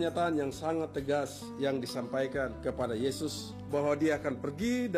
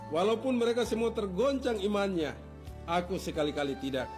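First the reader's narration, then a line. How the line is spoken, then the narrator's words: Firm. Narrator (Indonesian): Petrus berkata dengan tegas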